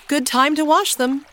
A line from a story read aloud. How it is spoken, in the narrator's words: she exclaimed